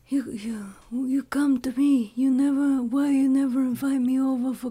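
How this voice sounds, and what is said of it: Godfather movie character impression. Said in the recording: “Do you want to do your Godfather impersonation? ... Your Godfather is really good.”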